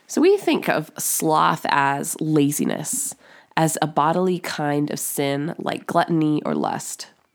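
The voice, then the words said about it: Congested voice from a cold. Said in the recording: “I've got a solid cold right now lingering in my sinuses, so if my voice sounds a little different”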